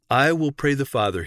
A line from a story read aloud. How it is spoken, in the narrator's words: he said